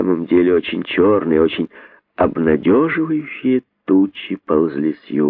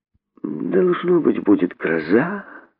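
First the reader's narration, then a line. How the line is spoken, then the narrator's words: Thoughtful. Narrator (Russian): задумчиво сказал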